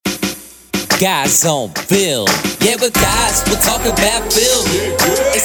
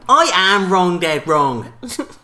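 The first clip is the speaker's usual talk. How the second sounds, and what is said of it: Imitates another person's voice. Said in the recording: “That's my impression. ... Of Arnold Schwarzenegger? ... No, Floyd Mayweather.”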